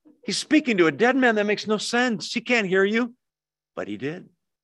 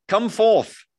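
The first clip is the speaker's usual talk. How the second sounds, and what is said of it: Mock British accent. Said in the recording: “You got to do the British accent, right?”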